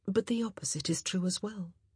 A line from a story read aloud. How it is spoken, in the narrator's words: Kate added softly